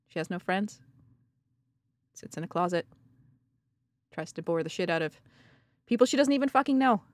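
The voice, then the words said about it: Canadian accent, talks a little funny. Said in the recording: “Up in Canada. You know, the one with the accent. Talks a little funny.”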